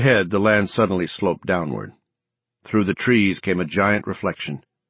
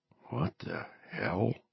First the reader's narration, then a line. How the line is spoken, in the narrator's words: Dugan mutter